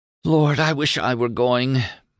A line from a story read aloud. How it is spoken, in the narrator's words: moaned Julian